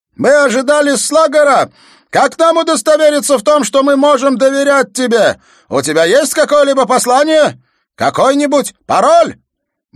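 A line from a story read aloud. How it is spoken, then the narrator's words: Shouted again. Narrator (Russian): Аркам снова закричал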